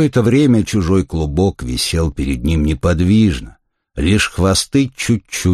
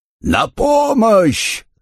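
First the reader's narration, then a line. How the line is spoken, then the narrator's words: Yelling. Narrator (Russian): завопил Сесурия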